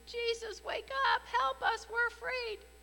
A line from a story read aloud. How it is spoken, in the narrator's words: the disciples pleaded